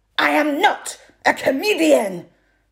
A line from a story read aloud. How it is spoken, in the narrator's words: she snapped